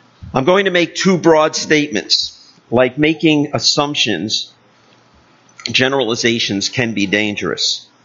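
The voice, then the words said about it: Loud, projected speaking voice. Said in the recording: “I'm trying to speak in my big voice.”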